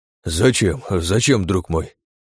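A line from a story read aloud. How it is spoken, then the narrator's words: Breathed out. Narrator (Russian): выдохнул Штерн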